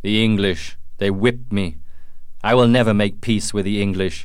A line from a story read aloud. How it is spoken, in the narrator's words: shouted Magua